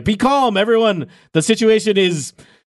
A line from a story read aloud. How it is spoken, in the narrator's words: some shouts from the guards